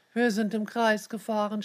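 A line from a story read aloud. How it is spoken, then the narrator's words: Groaning. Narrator (German): stöhnte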